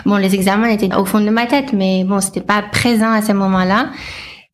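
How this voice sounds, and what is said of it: Slight American accent. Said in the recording (French): “On entend ton petit accent ... je suis américaine à la base”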